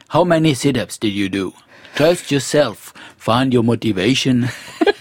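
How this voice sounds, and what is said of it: Imitates another person's accented English. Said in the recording (French): “Il a jamais perdu son accent.”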